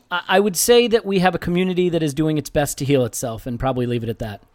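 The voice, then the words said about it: Accent not from South London. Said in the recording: “a strange accent ... You're not from South London, are you?”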